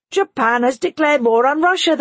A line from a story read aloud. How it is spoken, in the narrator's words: they roared